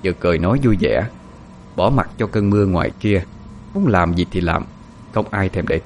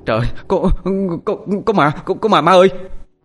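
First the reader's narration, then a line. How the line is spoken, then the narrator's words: Breathless boy. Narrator (Vietnamese): con trai của chị thở hổn hển ... lên tiếng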